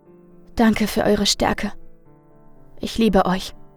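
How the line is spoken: Weak but convinced. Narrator (German): sagte schwach und doch voller Überzeugung

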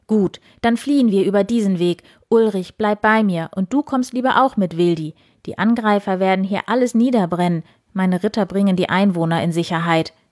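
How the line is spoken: Firm, resolute call. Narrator (German): rief Eberhard entschieden

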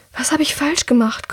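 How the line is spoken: Panting breathlessly. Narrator (German): keucht Drea, noch immer schwer atmend

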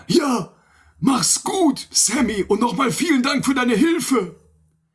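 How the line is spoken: Calling after someone. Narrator (German): Mickey rief ihm noch hinterher

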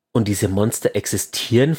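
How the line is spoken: Serious questioning voice. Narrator (German): fragte Lord Saladin mit ernster Stimme

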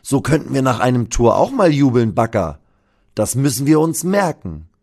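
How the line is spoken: Calling out, laughing. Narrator (German): ruft Sonny lachend

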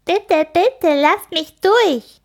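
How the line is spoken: Mocking imitation, laughing. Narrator (German): äfft Grit nach und lacht

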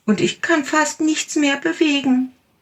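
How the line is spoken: Small tiger calling. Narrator (German): rief der kleine Tiger

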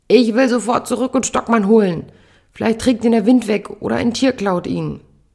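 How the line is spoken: Bellowing at someone. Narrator (German): brüllt sie mich an

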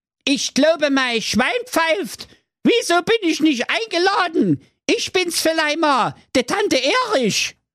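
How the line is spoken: Thunderous voice. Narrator (German): die Gestalt sprach mit donnernder Stimme

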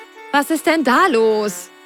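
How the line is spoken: Called out. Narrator (German): rief Carlotta

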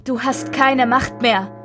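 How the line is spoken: Shouting. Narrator (German): König Richard schrie

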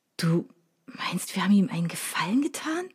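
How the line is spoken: Whispered, almost convinced. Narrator (German): flüsterte ich schon fast überzeugt

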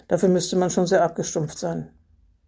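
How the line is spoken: Dry. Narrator (German): sagte trocken

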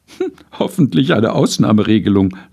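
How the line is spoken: Laughing. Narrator (German): lachte sie

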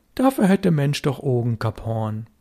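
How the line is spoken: Calm. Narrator (German): Störtebeker sagte ruhig

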